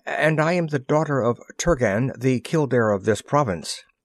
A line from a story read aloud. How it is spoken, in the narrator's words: she faltered